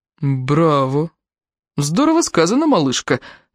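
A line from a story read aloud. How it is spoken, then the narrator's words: Mocking reply. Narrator (Russian): насмешливо ответил Энтони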